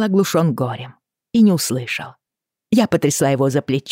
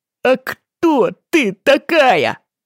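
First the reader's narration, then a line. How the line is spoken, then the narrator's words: Yelled. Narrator (Russian): заорал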